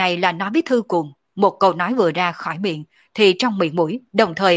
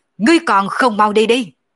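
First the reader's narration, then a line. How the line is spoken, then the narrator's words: Angry roar. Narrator (Vietnamese): nổi giận gầm lên một tiếng nói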